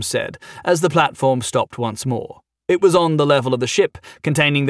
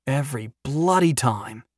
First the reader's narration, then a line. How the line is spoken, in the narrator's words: he muttered